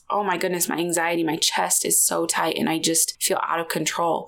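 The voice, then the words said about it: Breathless, fast speech. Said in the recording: “I feel out of breath just talking about it. I don't know if it's because I'm talking too fast”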